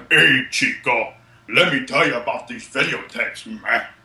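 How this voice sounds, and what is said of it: Deliberately bad put-on wrestler accent. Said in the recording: “I'm using my worst Razor Ramon, like, accent”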